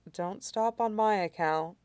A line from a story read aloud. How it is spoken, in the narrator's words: Zhou Jun murmurs softly, his voice turned to downy feathers from disuse